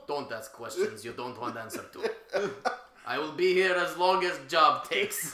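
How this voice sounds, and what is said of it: Put-on Russian accent. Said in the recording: “he has a Russian accent.”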